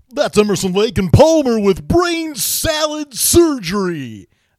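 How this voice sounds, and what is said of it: Cheesy 70s rock radio DJ voice. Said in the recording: “my best impression of a cheesy 70s rock and roll DJ”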